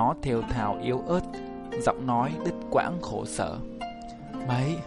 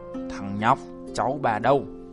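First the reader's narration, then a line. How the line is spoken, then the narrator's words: Harsh growl. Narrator (Vietnamese): Hắn gằn giọng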